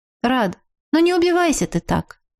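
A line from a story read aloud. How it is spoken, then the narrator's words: Sighing. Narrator (Russian): Я вздохнула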